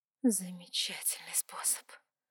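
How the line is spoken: Whispered reply. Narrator (Russian): шепотом ответила

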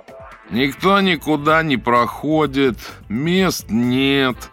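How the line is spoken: Nasal dull droning. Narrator (Russian): гнусаво и уныло бубнил

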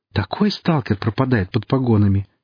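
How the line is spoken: Admiring sigh. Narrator (Russian): восхищенно вздохнула Хип

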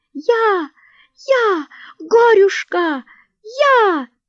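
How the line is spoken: Loud ringing squeal. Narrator (Russian): звончей всех визжала хромая Анютка

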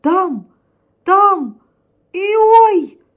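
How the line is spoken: Squealed. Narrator (Russian): провизжал Тишка

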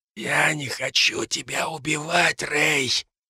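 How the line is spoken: Whisper. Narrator (Russian): прошептала мне Ребекка

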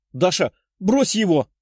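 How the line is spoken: Exclaimed. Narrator (Russian): воскликнула она

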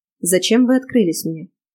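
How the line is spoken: Dry question. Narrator (Russian): сухо спросила я

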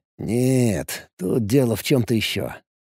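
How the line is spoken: Mutter. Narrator (Russian): пробормотал Алекс

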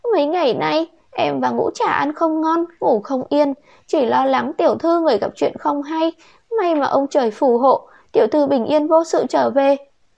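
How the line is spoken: Tearful sobbing. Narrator (Vietnamese): Đạo Thất khóe mắt cũng đỏ cả lên, thút thít lên tiếng

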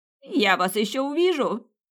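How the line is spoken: Shrieked. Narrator (Russian): взвизгнул мужчина

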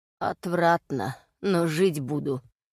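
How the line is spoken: Hoarse reply. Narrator (Russian): хрипло ответил Ревенс

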